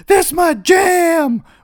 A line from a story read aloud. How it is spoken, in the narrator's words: yelling in someone's face